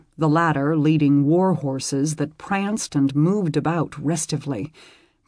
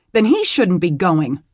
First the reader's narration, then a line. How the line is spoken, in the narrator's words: she snapped, scared to death that something might happen to him